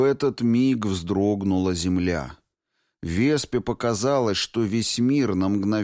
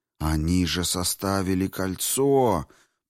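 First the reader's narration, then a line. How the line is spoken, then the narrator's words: Shocked breathless exclamation. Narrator (Russian): потрясенно выдохнул он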